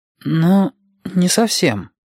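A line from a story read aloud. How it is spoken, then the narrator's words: Uncertain. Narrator (Russian): неуверенно сказал Юкки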